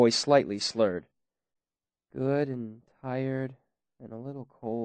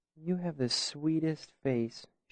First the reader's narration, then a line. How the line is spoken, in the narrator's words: she said, looking at me dreamily